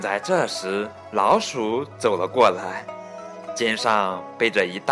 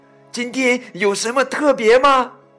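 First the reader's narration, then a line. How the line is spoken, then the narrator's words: Shouting. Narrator (Chinese): 老鼠，弗洛格喊道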